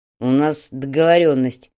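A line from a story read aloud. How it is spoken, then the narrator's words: Growl. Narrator (Russian): прорычал Фадеев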